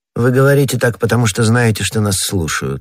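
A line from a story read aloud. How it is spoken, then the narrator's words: Cold remark, lady. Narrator (Russian): холодно заметила миледи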